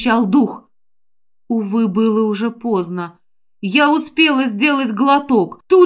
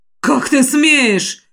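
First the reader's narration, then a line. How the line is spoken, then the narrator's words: Furious roar. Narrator (Russian): взревел Тышар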